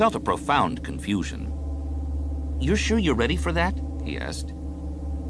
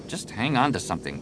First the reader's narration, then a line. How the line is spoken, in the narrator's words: Jason muttered